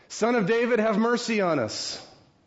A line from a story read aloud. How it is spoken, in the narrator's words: the blind men shout out